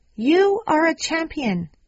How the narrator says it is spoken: the man screams

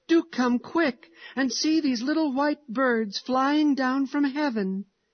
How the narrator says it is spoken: he cried joyfully

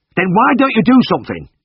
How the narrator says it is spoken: snapped

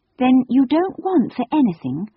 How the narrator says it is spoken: Anthea asked earnestly and anxiously

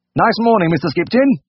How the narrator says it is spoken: he sang out cheerfully

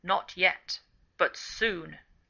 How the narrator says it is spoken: She answered in a deep voice

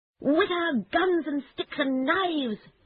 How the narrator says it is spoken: shouted the Rat

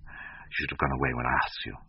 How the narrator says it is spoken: muttered

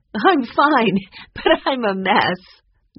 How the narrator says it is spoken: Nancy laughed

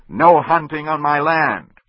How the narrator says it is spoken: Ben shouted

